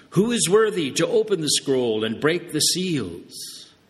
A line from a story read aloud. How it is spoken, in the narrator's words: a mighty angel proclaiming in a loud voice